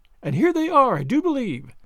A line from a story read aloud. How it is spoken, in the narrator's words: said Sally, excitedly